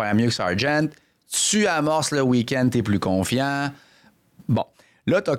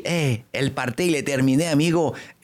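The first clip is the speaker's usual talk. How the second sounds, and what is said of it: Put-on Spanish accent. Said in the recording (French): “cette voix avec un accent espagnol ... Il adore imiter les accents”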